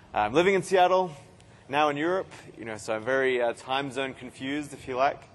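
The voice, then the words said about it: Australian accent. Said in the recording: “You can probably tell by my accent, I'm an Australian.”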